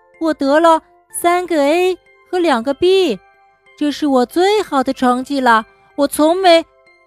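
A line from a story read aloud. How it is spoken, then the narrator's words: Trailing off. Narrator (Chinese): 他没有把话说完，就停了下来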